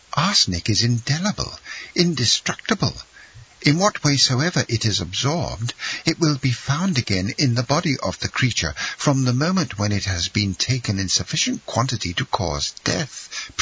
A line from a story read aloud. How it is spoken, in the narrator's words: she exclaimed suddenly